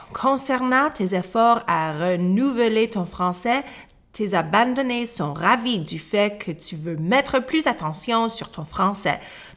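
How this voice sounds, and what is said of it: Neutral slightly Canadian French accent. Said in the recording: “Ils apprécient aussi ton bel accent neutral accent. Un peu canadien avec une petite influence européenne.”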